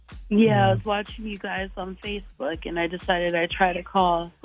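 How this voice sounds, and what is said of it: Hoarse, weak voice. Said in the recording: “lost my voice, so I'm sorry I sound terrible”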